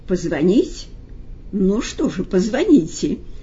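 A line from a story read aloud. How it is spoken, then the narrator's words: Sad patient agreeing. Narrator (Russian): Печально согласился больной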